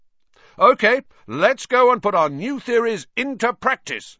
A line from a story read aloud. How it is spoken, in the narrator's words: Wood shouted